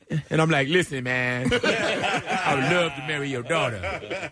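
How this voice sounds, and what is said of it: Imitates another person's voice. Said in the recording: “I don't know why I'm using this 80s Eddie Murphy voice”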